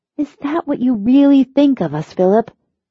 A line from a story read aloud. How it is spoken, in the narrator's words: She asked, her voice uncertain